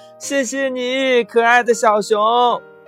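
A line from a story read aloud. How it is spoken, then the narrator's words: Little frog calling, distant. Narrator (Chinese): 后边传来小青蛙的叫声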